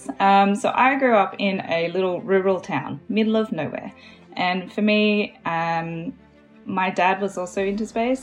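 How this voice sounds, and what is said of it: Australian accent. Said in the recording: “I am Australian. You might be able to hear that in my voice.”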